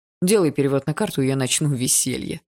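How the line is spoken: Snorting. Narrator (Russian): хмыкнул Егор

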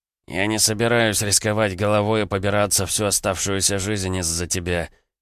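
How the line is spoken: Speaking through teeth. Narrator (Russian): с порога процедил

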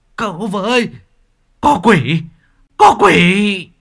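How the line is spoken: Old man screaming in terror. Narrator (Vietnamese): Lão miệng gào thét

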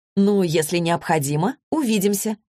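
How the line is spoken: Cheerful reply. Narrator (Russian): весело ответила она

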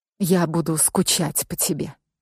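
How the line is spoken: Quiet. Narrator (Russian): тихо проговорила Петра

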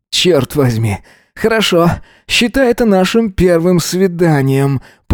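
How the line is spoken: Moaning. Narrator (Russian): простонал Эзра

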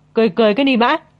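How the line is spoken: Shout. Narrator (Vietnamese): Mông Phong quát

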